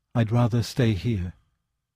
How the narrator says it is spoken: someone at whose vitals death was gnawing said in a thin and lovely voice

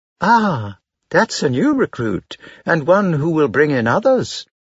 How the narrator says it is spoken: my mother exclaimed

